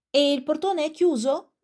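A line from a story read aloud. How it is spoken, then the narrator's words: Gentleman shouting again. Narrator (Italian): gridò di nuovo il signore affacciato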